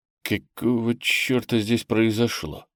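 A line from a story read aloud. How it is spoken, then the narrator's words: Muttering. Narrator (Russian): пробормотал он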